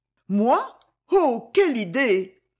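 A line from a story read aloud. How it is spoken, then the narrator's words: Blushing exclamation. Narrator (French): s'écria-t-elle toute rougissante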